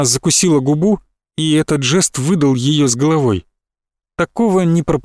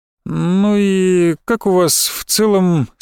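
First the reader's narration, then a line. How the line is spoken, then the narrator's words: Forced casual question. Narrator (Russian): спросила, стараясь говорить настолько беспечно, насколько могла из себя выдавить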